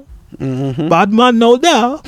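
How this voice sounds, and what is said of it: Poor put-on Jamaican accent. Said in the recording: “That's a horrible Jamaican accent.”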